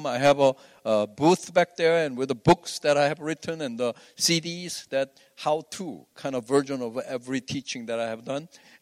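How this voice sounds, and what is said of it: Korean accent. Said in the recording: “You just need to filter out the Korean accent.”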